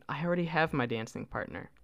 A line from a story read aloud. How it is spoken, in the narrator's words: He would kindly decline the offer, saying